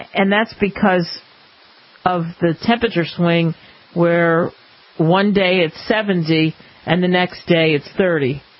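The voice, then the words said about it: Hoarse, partly lost voice. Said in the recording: “You can tell, obviously, it's happened to me. I've lost my voice at times a little bit”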